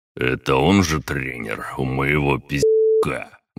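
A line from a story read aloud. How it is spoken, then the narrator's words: Rough, gruff. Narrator (Russian): грубо уточнил атаман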